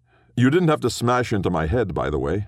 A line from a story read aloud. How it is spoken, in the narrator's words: snapped, because snapping would keep the wooziness away